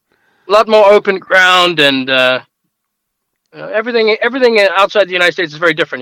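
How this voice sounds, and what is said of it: South African accent. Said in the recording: “you don't have a Colorado accent... originally from South Africa”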